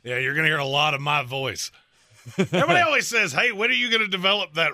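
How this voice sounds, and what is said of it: Gravelly, rough voice. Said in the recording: “it just gets more gravelly and angry”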